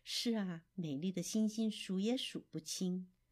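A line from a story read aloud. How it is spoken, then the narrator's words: Soft, gentle father. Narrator (Chinese): 狐狸爸爸轻声地说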